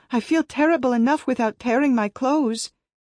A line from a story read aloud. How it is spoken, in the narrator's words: I cried